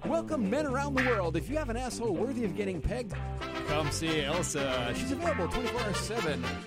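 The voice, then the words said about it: Mock announcer studio voice. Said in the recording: “I tried my best to do my studio voice.”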